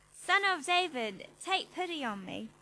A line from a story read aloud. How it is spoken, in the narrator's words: he shouted even more loudly